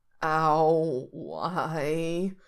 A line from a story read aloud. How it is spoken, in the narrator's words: he moans, regretting everything